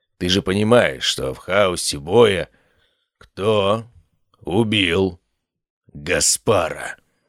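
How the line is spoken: Hard hammering words through teeth. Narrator (Russian): Процедил сквозь зубы Антрайн, и каждое слово прозвучало, как удар молота по наковальне

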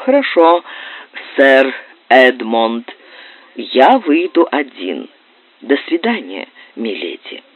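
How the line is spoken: Calm, suppressed indignation. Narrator (Russian): овладел своим негодованием и произнес спокойным голосом

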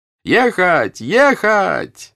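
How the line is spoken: Shouted. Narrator (Russian): закричал Анатоль

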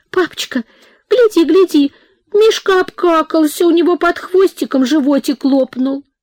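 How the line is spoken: Surprised childish babble. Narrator (Russian): Она, выпучив удивленные глазенки, лепетала

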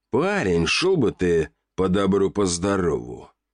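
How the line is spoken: Angry growl, boiling over. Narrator (Russian): рыкнул блондин, натурально вскипая

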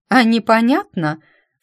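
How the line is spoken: Snorting older woman. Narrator (Russian): фыркнула дама лет, точно не 60 или около того

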